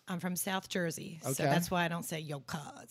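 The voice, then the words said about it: South Jersey accent. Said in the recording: “I say it with my Jersey accent instead of my Philly accent. ... Is there a South Jersey accent that's different than a Philly accent? ... Yeah, mine.”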